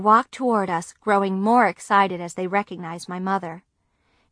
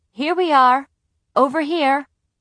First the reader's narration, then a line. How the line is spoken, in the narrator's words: my mother called out